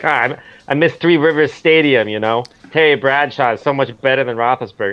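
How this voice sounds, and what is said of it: Put-on East Coast accent. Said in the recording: “I'm just doing, like, a East Coast accent, which is probably insulting”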